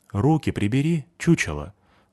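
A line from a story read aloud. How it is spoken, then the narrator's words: Quiet, close to ear. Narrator (Russian): сказал я негромко, но прямо в ухо высокому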